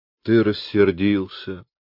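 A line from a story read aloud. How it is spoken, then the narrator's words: Gentle, rueful tone. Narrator (Russian): С огорченной миной ласково продолжал Люпен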